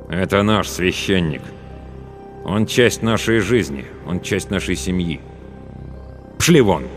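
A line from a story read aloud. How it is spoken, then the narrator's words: Cold declaration. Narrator (Russian): Главный ликвидатор холодно заявил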